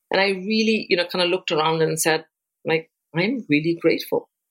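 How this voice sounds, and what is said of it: Foreign accent. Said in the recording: “I'm come from a different country, have an accent”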